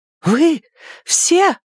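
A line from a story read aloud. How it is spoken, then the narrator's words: Sudden shocked scream. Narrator (Russian): внезапно закричала она, широко раскрыв глаза, потрясённая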